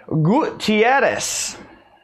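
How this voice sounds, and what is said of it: Attempted Hispanic accent. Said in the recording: “It's my attempt at a Hispanic accent.”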